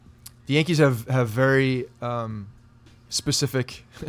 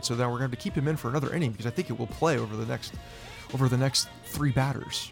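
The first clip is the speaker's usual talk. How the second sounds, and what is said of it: Nerdy stereotyped voice. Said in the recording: “That's a good nerd voice”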